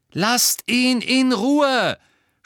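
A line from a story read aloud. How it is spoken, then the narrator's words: Scream. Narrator (German): schrie Lily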